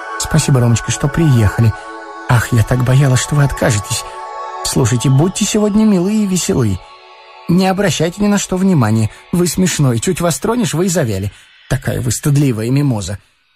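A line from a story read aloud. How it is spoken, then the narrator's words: Quick, low voice. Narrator (Russian): она говорила быстро и вполголоса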